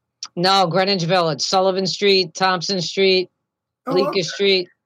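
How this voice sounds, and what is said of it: New York Italian accent. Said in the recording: “I hear the accent. This one's a New Yorker and Italian. ... I love the accent.”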